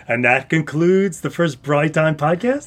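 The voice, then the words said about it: Announcer voice. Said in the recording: “I'm going to put my announcer voice on”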